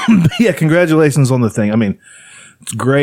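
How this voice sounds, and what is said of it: Usual voice. Nothing is said of it.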